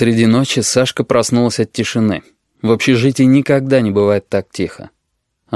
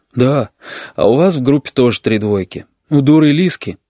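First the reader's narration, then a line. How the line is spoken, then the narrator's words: Sighing. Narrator (Russian): Оксана вздохнула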